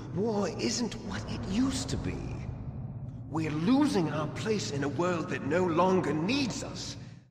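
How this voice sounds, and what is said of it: Haughty aristocratic British accent. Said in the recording (Finnish): “brittiaksentti alkuperäisessä, vähän semmoinen koppava ylimielinen aristokraatti ääni ... just semmoinen niinku persereikä douchebag britti”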